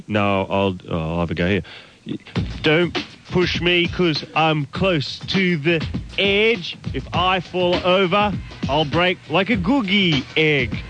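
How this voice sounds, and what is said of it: Liverpudlian accent, rapping. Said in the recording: “Can I do it in a Liverpudlian accent? ... is there a Liverpudlian rap?”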